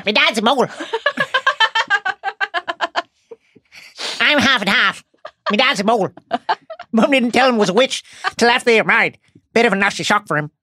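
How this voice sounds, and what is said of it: Seamus Finnegan accent impression. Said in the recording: “your foray into Seamus Finnegan accent work”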